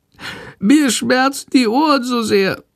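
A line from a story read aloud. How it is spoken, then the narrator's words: Sick bat's meek whimper. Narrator (German): jammert die kranke Fledermaus ganz kleinlaut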